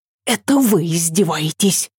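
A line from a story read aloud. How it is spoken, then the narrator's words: Hissing reply. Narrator (Russian): зашипела Ася в ответ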